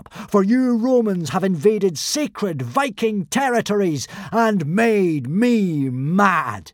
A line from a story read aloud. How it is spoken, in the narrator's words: bellowed Hiccup